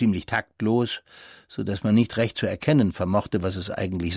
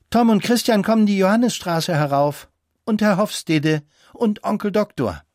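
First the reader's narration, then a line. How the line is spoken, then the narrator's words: Called out. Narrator (German): rief fast gleichzeitig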